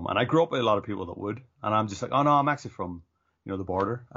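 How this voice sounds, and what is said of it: Very northern Irish accent. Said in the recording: “I grew up in the northwest. It's in County Donegal. So that's why my accent is actually, it's very, very northern. So I sound like someone from Northern Ireland”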